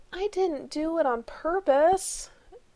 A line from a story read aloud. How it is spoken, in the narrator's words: he moaned